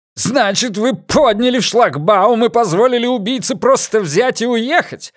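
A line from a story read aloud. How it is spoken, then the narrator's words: Spluttering furious shout. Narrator (Russian): брызгая слюной, прокричал Франк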